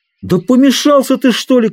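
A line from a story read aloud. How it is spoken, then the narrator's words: Shouted. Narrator (Russian): крикнул он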